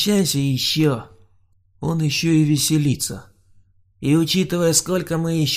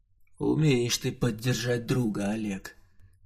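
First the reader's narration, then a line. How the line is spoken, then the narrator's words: Dejected mutter. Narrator (Russian): понуро пробормотал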